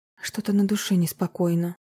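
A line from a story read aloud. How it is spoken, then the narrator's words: Embarrassed mumble. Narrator (Russian): смущенно пробормотала Марина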